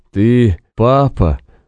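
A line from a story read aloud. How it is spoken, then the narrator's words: Strained, forced out. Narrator (Russian): выдавил из себя прокурор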